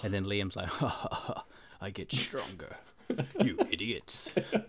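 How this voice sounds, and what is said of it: Imitates another person's voice. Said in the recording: “That's my Liam impersonation. ... That's a great Liam.”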